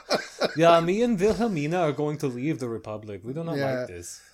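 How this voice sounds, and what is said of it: Bad put-on German accent. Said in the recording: “Is that your German accent? ... It's so bad. ... Norway tonight, mixed with Germany mixed with I don't know what”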